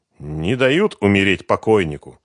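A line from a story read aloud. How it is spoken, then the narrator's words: Crude joking. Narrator (Russian): грубо пошутил Глущенко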